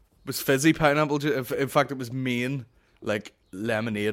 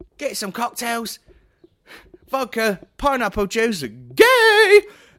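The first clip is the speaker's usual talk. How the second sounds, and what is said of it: Impression of a reality TV guy. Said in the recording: “that's my impression of that Leaning 15 guy, but my version of it.”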